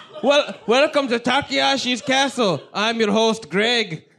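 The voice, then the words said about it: Put-on Australian accent. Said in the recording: “this fucking Dago Australian version ... All of the accent, everything you said was wrong. ... I'm Greg, the Australian.”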